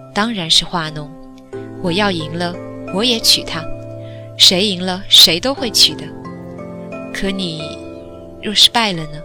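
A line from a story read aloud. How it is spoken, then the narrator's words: Somewhat surprised. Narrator (Chinese): 有些吃惊道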